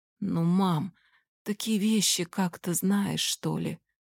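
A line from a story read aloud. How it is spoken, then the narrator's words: Spoke quietly. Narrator (Russian): Он говорил тихо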